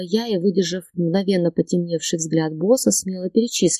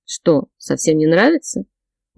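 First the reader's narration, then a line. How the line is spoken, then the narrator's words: Surprised grumble. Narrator (Russian): удивился Богдан Семенович, проворчал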